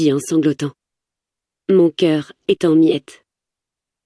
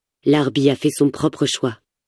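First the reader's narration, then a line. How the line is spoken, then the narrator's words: Plain. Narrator (French): dit-il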